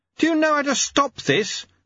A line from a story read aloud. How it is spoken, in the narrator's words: screamed Lobsang